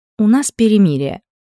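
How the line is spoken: Grumbling. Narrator (Russian): пробурчала Элли

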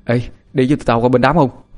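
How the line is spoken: Breathless, panting. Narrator (Vietnamese): Thằng Trung vừa thở hổn hển vừa nói

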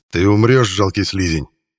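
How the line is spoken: Unconvincing growled threat. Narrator (Russian): прорычал Геррант, уже понимая, что в данных обстоятельствах его угроза звучит не слишком убедительно

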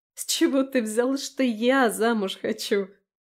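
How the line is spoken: Laughing while speaking. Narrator (Russian): не переставая смеяться

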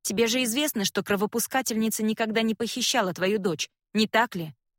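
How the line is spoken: Sharper tone than intended. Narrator (Russian): Я произношу эти слова более резким тоном, чем собиралась

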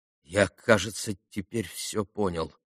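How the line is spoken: Quiet sad reply. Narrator (Russian): тихо и грустно ответил Алеша

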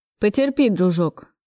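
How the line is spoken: Angrily snapped. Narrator (Russian): Зло бросил Максим

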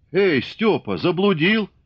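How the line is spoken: Shout. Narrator (Russian): крикнул Аникушка

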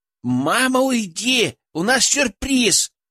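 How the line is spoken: Daughters shouting in unison. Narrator (Russian): в один голос закричали дочери

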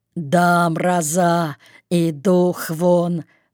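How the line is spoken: Muttered through teeth. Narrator (Russian): процедил одноногий

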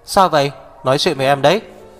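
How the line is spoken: Loud. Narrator (Vietnamese): Hạc Viêm Triệt lớn tiếng nói

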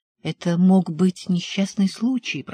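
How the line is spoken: Whisper. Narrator (Russian): прошептала Джуди

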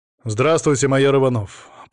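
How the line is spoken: Dry. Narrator (Russian): представился он сухо

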